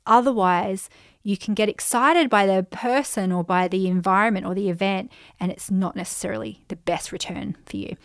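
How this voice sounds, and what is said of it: Slightly croaky voice. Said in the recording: “my voice is getting a bit croaky”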